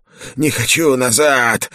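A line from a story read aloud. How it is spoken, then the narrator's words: Creature shrieking. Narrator (Russian): визжала тварь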